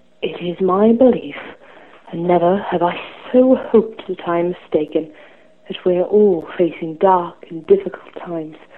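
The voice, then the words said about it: Character voice of an old wizard. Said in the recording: “impersonation for you. I'm going to be impersonating Professor Dumbledore from Goblet of Fire”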